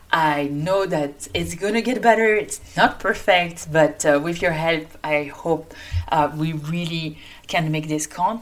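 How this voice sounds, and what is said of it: French-accented English. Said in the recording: “It's in English, as you can hear, with my French accent.”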